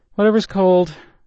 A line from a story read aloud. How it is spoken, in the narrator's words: Maddie called out from the couch